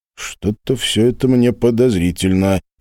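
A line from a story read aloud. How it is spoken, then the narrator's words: Grumbling. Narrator (Russian): проворчал Глеб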